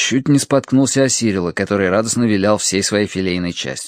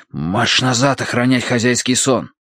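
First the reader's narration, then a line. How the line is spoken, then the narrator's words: Hissing. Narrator (Russian): прошипел я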